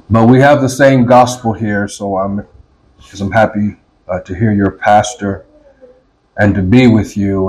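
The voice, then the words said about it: Foreign accent. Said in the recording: “I may sound a bit stranger to some of you, it's the accent of a foreigner”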